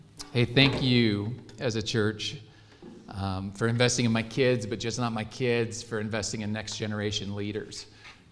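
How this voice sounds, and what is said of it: Choked-up, emotional voice. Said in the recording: “Now I'm all choked up.”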